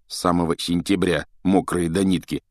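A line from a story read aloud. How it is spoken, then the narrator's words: Mutter. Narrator (Russian): буркнул Джордж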